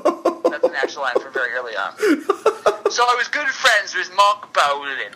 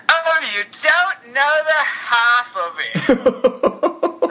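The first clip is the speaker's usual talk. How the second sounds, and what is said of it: Over-the-top Mockney accent. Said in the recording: “He's taking on this Mockney accent ... Mockney accent ... it's really over the top”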